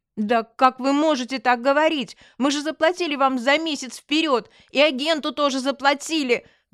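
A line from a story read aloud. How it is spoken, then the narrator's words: Yelling. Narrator (Russian): заорала я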